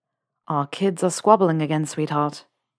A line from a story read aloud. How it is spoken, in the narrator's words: Theo sighs